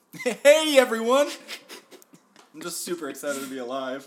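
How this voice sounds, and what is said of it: Overly cheerful radio announcer voice. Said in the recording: “Radio announcer voice. ... Way too happy.”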